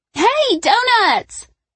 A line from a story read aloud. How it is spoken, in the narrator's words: Brooke squealed